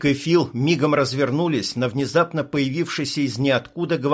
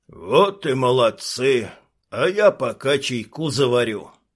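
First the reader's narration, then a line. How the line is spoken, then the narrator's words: Casual grumble, old man. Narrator (Russian): Как ни в чем не бывало, проворчал дед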